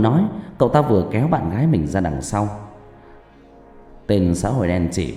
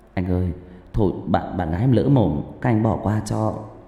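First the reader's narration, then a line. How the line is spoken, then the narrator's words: Trembling voice. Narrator (Vietnamese): giọng run rẩy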